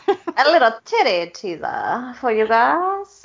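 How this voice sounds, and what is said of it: Put-on unidentified accent. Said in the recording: “I don't know what that accent is, but that's where I went with it.”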